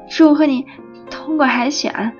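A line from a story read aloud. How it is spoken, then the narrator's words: Stammering. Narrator (Chinese): 我有点结结巴巴地说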